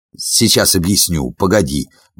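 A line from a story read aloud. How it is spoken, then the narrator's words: Muttering. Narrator (Russian): бормотал он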